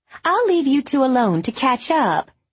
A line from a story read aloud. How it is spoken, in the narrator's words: said brightly, as if there were nothing unusual